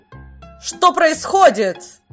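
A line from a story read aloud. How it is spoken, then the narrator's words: Shouted in a queen's voice. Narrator (Russian): крикнула Маграт по-прежнему голосом королевы Инси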